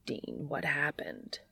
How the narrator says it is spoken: Castiel whispers

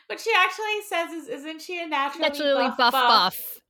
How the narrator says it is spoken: She giggles at her own little

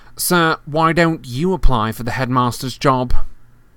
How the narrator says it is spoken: said Malfoy loudly

